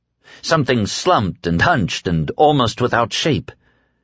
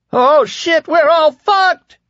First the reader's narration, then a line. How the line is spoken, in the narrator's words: Lloyd Henried cried